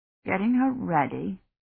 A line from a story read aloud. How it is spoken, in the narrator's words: Dunworthy muttered